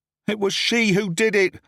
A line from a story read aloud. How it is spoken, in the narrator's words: I cried